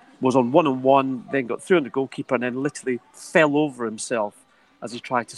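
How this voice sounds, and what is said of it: Usual voice. Nothing is said of it.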